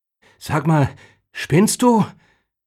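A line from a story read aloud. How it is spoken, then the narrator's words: Breathless outburst. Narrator (German): stieß er atemlos aus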